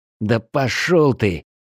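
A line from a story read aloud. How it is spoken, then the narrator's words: Angry mutter under breath. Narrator (Russian): зло буркнул себе под нос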